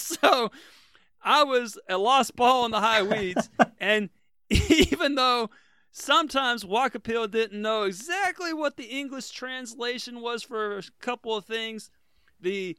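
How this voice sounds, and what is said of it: Slight American Southern accent. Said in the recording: “I might have a slight accent ... I got my accent ... the Southerner”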